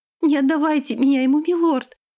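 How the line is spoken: Sobbing. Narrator (Russian): зарыдала она

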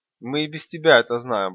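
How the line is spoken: Smirking snort. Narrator (Russian): Большой хмыкнул

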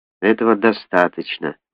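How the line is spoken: Gloomy. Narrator (Russian): мрачно сказала Барбара

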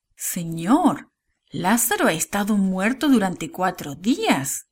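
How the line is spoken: Exclaiming. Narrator (Spanish): exclamó María

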